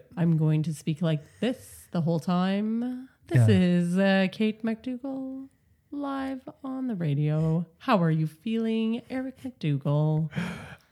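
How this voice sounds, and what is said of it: Put-on radio announcer voice. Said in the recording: “I'm trying to do this new voice. It's a radio voice. ... your radio voice”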